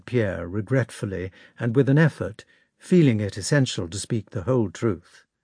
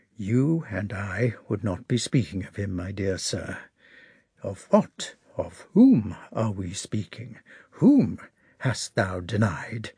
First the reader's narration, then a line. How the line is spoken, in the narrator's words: he said quietly